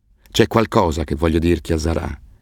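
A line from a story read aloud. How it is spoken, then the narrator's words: Grave tone. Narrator (Italian): disse con tono grave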